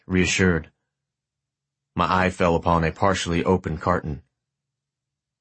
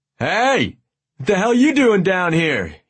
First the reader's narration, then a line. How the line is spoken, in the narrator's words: he shouted